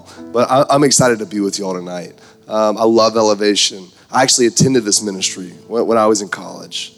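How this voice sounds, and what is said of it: Hoarse, strained voice. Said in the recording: “My voice is thrashed, so pray tomorrow I can talk at all”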